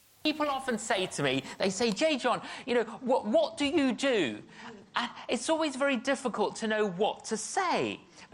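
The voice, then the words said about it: British accent. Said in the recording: “He's British. I love his accent. It's awesome.”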